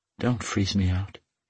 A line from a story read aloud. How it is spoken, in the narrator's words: she whispered